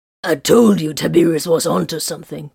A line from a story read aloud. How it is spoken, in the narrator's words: Corvin growled